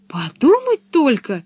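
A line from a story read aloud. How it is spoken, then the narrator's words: Exclaimed. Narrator (Russian): воскликнула Пеппи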